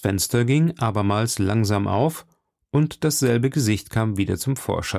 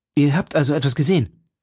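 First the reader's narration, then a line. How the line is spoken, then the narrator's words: Call. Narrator (German): rief D'Artagnan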